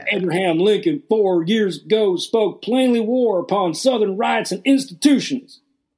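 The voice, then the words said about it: Put-on Southern US accent. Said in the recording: “All I can do is a Southern accent.”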